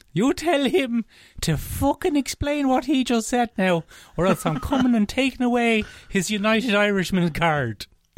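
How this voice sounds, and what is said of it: Old-timey Cork accent, Michael Collins. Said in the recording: “The ghost of Michael Collins has just appeared over my shoulder. And he said to me in a Cork accent ... it's an old-timey Cork accent.”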